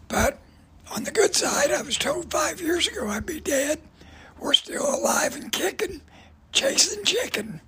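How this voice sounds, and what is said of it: Raspy damaged voice. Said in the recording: “The raspy voice is from fighting cancer the last 10 years. Destroyed my voice box.”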